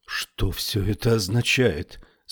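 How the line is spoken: Trembling voice. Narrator (Russian): спросила Феба дрожащим голосом

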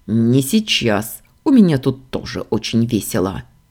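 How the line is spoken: Barked. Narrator (Russian): рявкнул Ордан

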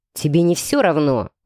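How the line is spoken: Growl. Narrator (Russian): рыкнул мужчина

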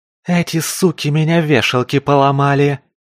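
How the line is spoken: Muffled squirrel hiss. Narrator (Russian): глухо прошипела белка

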